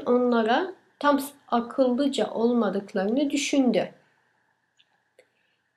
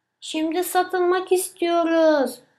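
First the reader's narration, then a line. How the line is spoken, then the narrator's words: Shouted together. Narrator (Turkish): diye bağırdılar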